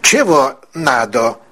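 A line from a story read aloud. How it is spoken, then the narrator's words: Unfriendly. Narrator (Russian): неприветливо произнес Беккер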